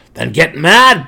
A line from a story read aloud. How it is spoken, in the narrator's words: Belwar growled